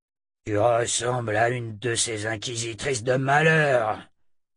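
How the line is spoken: Suspicious growl. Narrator (French): grogna Tyler, toujours méfiant

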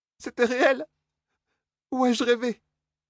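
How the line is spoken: Sobbing speech. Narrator (French): Ses sanglots

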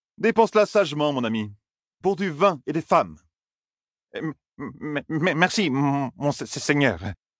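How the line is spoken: Servant stammering. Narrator (French): bégaya le domestique

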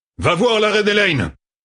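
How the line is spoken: Shouting. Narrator (French): cria-t-il

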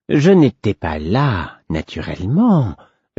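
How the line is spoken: Madman's suave repetition. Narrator (French): répéta le fou d'un ton suave

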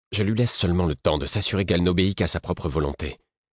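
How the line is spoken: Curt retort. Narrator (French): rétorqua Devoir sèchement

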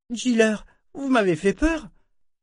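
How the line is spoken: Child exclaiming. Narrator (French): s'exclama l'enfant

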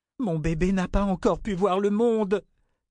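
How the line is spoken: Exclaimed. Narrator (French): s'écria-t-elle

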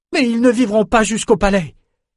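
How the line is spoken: Shouted. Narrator (French): cria Iréna

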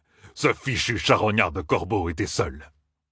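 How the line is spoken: Sneering. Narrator (French): ricana Uno

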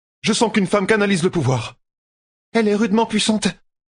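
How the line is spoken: Exclaiming. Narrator (French): s'exclama Nessuné

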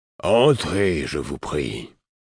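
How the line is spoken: Deep, pleasant voice. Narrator (French): répondit-on d'une voix grave et agréable

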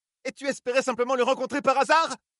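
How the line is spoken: Shouting. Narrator (French): cria-t-elle à Demandred

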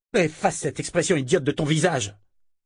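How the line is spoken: Shouted. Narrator (French): cria-t-elle

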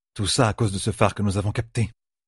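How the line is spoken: Murmured. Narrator (French): murmura-t-elle

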